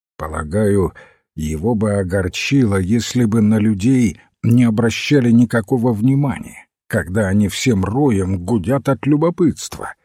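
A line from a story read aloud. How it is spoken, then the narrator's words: Plain. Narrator (Russian): сказал молодой человек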